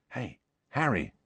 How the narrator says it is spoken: said Ron softly

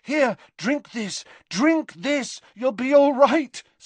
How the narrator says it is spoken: said Harry desperately

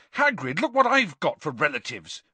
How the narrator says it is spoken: Harry said furiously

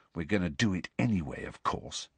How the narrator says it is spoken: said quietly

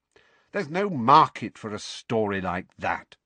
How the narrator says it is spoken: said Rita coldly

